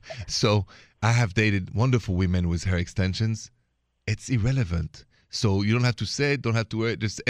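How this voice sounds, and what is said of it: Speaks with an accent. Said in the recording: “I may have an accent”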